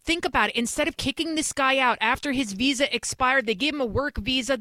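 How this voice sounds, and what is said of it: New York Bronx accent. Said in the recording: “I'm from New York City, as you could probably tell from my accent. I'm from the Bronx”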